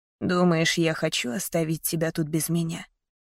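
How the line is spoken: Tender. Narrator (Russian): ласково сказал он

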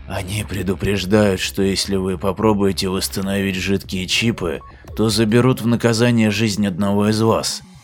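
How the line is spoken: Frightened whisper. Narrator (Russian): шепотом сказал Лафин, не привыкший за свою долгую спокойную жизнь к угрозам

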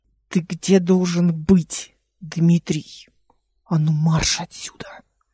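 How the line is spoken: Angry hiss. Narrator (Russian): прошипела Эл

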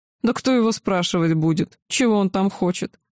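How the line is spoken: Old man's chuckle. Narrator (Russian): хохотнул древний

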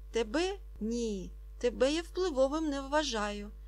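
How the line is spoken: Frightened but firm reply. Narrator (Ukrainian): злякано, але переконано відповів господар

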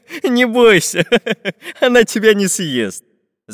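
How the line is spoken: Laughing. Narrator (Russian): засмеялся Карандаш

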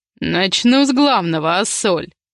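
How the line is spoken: Growled. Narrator (Russian): прорычал он

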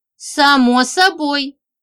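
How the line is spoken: Cheerful. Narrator (Russian): радостно кивнула Женька

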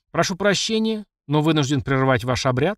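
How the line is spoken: Smirking. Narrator (Russian): хмыкнул я

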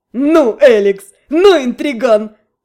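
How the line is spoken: Forced out through laughter. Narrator (Russian): выдавил сквозь смех Адриан

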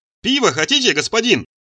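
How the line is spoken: Shouting from the doorway. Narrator (Russian): закричал он еще с порога

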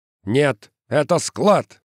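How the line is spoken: Barked. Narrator (Russian): рявкнул Каскер

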